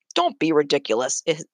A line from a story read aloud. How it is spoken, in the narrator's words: his father said